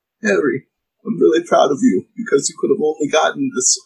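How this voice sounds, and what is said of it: Failed Godfather Italian impression, sounds Boston. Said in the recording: “read that in like Marlon Brando from The Godfather's voice ... I can't do the accent ... that was a fail. That was a hard fail ... When did Dumbledore like come from like Southie Boston? ... I was trying to do Italian. I was trying to do like I said, The Godfather ... you sounded bad. Like if Dumbledore was played by Mark Wahlberg”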